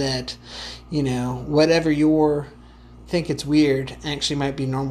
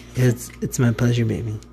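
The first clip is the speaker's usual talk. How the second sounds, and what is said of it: Sultry, seductive voice. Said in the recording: “it's a sexy voice”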